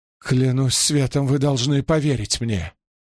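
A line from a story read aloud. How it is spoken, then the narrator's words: Moaning. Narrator (Russian): Кто-то простонал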